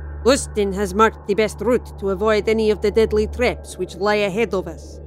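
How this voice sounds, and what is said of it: Thick Russian accent. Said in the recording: “in a thick Russian accent”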